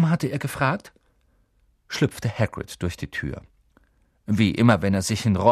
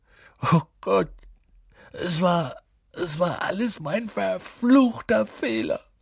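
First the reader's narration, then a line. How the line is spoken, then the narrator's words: Sobbing into hands. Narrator (German): schluchzte er, das Gesicht in den Händen vergraben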